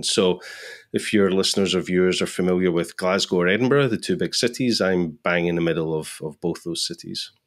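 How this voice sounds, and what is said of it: Scottish accent. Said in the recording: “let's start with the accent. No, you're not from Texas... I'm definitely not from Texas. I'm definitely not from San Francisco. I'm from Scotland.”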